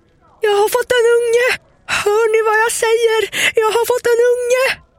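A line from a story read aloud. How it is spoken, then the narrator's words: Ecstatic, crazed shouting. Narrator (Swedish): Med höga jubelsprång ... skrek som en galning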